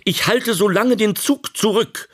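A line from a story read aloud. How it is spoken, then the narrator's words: Calling out. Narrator (German): rief er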